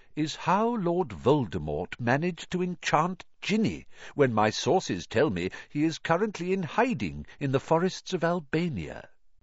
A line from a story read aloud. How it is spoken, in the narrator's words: said Dumbledore gently